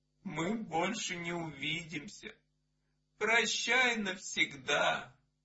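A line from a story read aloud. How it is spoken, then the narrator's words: Tearful, sobbing. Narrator (Russian): Сусанна заплаканные глазки, всхлипнула и ответила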